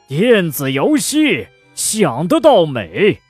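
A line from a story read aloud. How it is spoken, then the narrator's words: Growing angrier. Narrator (Chinese): 他越说越生气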